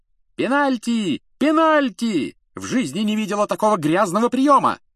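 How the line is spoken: Shout. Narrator (Russian): закричала мадам Трюк

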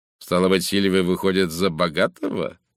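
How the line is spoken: Mocking. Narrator (Russian): насмешливо заключил он

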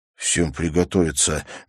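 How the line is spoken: Soundless whisper. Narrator (Russian): беззвучно прошептал Отто

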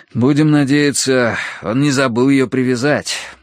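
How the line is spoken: Sighing. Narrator (Russian): вздохнул я

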